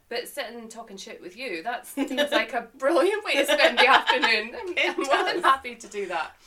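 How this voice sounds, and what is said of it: Scottish accent. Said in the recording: “to give a little context to my accent and where I've come from, Scotland”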